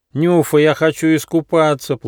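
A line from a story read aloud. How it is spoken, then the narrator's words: Whiny pleading platypus. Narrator (Russian): плаксивым голосом попросил утконос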